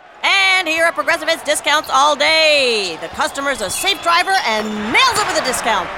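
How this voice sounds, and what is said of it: Excited play-by-play announcer voice. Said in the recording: “my impression of a play-by-play announcer”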